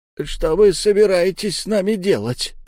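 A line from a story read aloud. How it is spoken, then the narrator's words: Old man's creaky voice. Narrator (Russian): проскрипел старик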